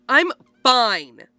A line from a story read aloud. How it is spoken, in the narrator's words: Cameron snaps